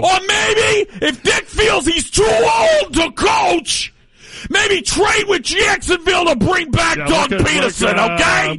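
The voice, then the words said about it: Yelling loudly. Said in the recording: “stop yelling. I need you to calm down ... What's wrong with yelling? ... You got a problem with yelling? ... listen to you yell about everything this morning”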